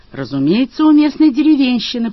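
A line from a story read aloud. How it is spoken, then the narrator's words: Shouting. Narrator (Russian): прокричал Мадж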